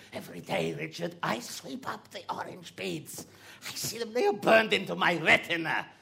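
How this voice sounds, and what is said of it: Put-on Bulgarian accent. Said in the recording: “I'm picking up a bit of an accent there ... Where are you from? ... Bulgaria, obviously.”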